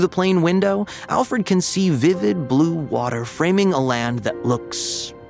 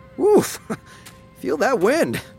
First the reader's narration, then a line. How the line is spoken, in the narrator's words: yelps his dad